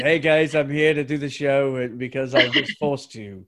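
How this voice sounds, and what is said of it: Awful put-on accent. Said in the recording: “There's another awful accent. ... It was awful.”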